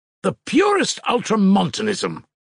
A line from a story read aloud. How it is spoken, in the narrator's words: cried Musav impatiently